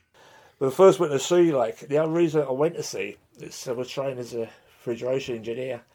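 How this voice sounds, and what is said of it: Strong accent, fluid way of speaking. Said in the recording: “has a strong accent and a slightly fluid way of speaking”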